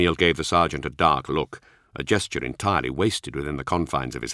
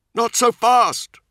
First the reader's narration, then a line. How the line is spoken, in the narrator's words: Nemiel yelled over the Testudo's roaring engine